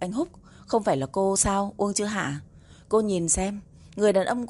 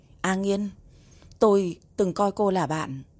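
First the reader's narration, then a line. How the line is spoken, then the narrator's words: Trembling. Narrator (Vietnamese): Uông Chữ Hạ run rẩy hỏi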